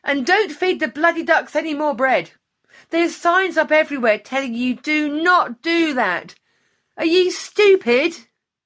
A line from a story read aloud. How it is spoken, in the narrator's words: he shouted after us